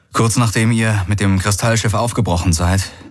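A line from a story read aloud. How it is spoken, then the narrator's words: Plain. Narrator (German): sagte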